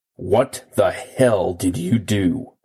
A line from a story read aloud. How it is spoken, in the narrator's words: He growled at me